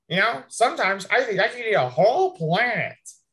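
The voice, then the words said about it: Impression of Jimmy Gourd. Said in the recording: “How about Jimmy Gord? ... There we go. That sounds good.”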